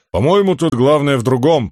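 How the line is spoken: Grumbling. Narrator (Russian): проворчал камень

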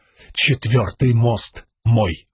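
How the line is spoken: Clipped, firm. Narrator (Russian): отчеканил Каладин

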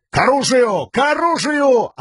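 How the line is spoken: Yelling. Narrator (Russian): орал Элокар

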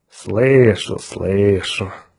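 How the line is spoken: Drawling. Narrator (Russian): протянул Улькворн

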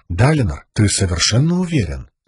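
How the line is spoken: Gentle question. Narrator (Russian): мягко спросила Навани

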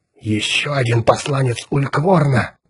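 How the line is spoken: Whisper. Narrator (Russian): прошептал Отто

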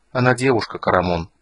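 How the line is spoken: Soft. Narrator (Russian): мягко сказала Золотая Луна

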